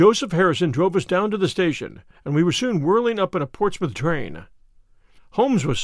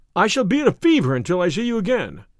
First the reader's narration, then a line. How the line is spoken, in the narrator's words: cried the diplomatist